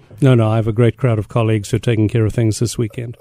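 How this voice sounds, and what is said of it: South African accent with Scottish traces. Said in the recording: “I notice you have an accent. ... South Africa originally via Scotland and then the Bronx.”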